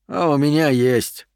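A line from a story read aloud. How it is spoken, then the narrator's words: Sigh. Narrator (Russian): вздохнул Стерлинг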